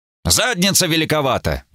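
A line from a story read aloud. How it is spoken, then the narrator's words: Snide gnome remark. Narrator (Russian): ехидно заметил гном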